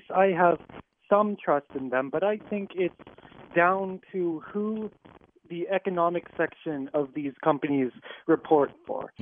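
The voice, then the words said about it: Young-sounding voice. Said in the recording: “I think maybe I'm a little young and naive, if you couldn't tell from my voice.”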